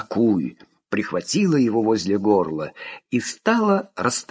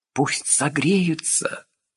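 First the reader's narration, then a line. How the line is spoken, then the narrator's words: Whisper. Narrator (Russian): прошептала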